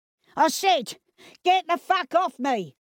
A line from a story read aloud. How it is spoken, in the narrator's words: yelled Cyril, now livid that he was being stopped from moving